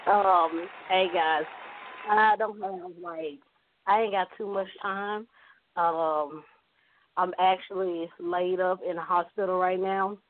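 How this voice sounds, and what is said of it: Hoarse voice. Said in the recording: “she sound a little hoarse”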